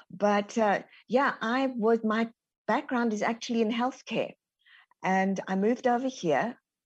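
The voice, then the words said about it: South African accent. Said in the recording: “born and raised in South Africa. As you can hear, the Texan twang hasn't quite got me yet.”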